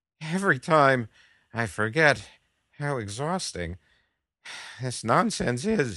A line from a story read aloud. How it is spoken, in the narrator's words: he gasped